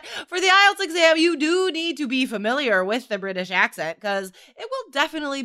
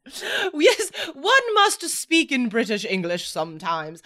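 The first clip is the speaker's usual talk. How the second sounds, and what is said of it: Fancy imitation British accent. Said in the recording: “using a fancy accent ... that's not a good example of a British accent”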